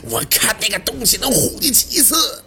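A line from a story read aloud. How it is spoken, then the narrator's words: Furious roar from upstairs. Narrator (Chinese): 背心在楼上暴躁的怒吼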